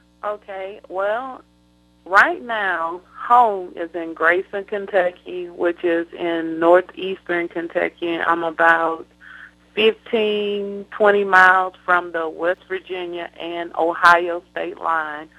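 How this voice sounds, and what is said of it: Southern US accent, Georgia. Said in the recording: “home in my heart is in southwest Georgia, hence the accent ... very, very south, very southern down in Georgia ... I'm a Southern Belle”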